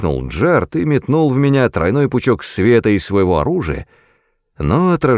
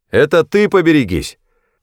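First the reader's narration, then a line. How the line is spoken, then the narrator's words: Barked reply. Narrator (Russian): рявкнул я в ответ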